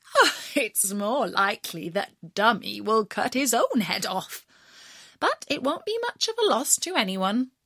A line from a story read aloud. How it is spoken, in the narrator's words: The mother laughed at him and said